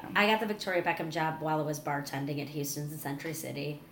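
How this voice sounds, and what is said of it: Chicago accent. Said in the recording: “you have an accent. ... I'm from Chicago”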